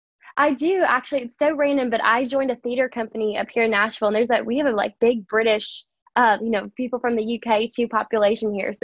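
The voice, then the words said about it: Mild American Southern accent. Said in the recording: “you've got a bit of a southern accent”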